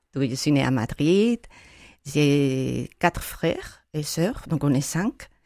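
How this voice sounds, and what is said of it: Spanish accent in French. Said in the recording (French): “vous avez entendu que je suis espagnole, avec mon accent”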